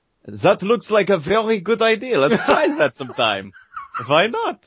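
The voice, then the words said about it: Mixed, inconsistent European accent. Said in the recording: “I like my accent, by the way. I worked real hard on it. ... I'm not sure if it was French, Belgian, or German. ... It was all over the place. ... It was all of them”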